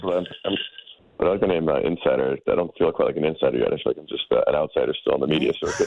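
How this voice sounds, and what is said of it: Gravelly voice from a cold. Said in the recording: “I'm fighting a little bit of a cold right now, so I apologize if I sound a little funny ... Little bit of cold ... You get a little bit of that gravel in you”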